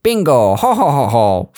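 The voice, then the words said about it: Luigi impression, exaggerated exclamations. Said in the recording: “that wasn't a terrible Luigi impression ... It's pretty good.”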